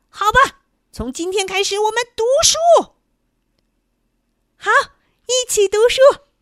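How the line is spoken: Hysterical furious shouting. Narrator (Chinese): 鬼子精整个脸都气紫了，歇斯底里的喊着

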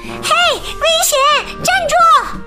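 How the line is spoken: Shouting. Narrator (Chinese): 他们在后面喊

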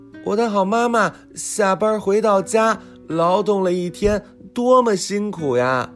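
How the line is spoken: Child shouting loudly. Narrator (Chinese): 对着窗外大声喊

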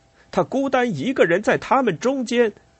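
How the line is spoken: Shout. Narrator (Chinese): 贝西安喊道

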